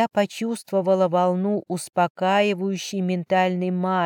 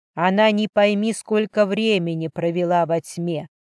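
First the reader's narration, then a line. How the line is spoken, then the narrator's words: Growled. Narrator (Russian): рыкнул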